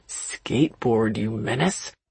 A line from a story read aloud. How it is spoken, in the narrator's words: Elliot growling